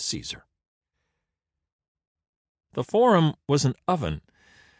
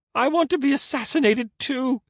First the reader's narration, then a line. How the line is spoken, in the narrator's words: sobbed